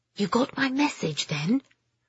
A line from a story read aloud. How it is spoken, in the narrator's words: It was low, hardly more than a whisper, but clearly a woman's